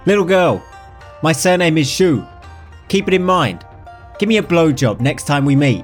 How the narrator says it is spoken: the good-looking beggar yelled

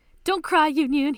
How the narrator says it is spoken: he shouts

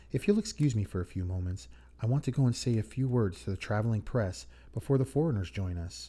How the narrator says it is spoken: she kindly said

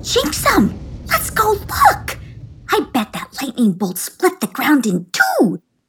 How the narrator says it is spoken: squealed Juanita

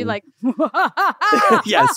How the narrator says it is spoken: my evil laugh came out

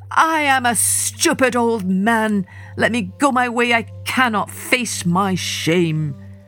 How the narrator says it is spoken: Wally Dodd sank to his knees and cried

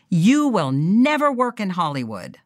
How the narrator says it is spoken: Zanuck shout

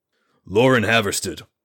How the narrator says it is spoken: Radric said in his most professionally cold tone

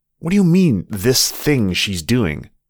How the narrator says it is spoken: Martin snarled

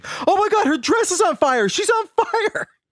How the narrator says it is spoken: panicked, screaming

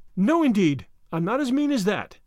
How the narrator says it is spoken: exclaimed Anne

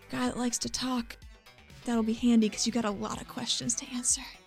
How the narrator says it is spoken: just leans into his ear and whispers

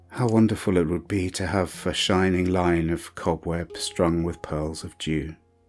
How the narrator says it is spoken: To herself she sighed and murmured

